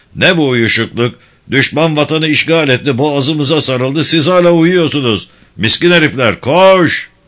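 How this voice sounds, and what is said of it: Shouting. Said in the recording (Turkish): “bağırmaya başladı”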